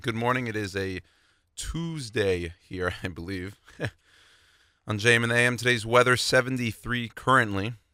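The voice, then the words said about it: Raspy voice. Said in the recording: “I apologize for the raspy voice this morning”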